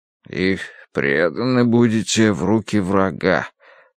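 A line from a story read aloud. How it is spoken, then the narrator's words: Muttering. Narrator (Russian): пробормотал Дануарти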